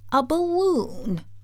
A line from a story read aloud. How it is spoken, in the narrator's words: said Oz